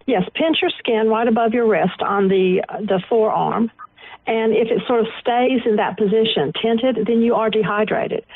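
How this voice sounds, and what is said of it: Southern American accent. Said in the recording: “It's a southern accent.”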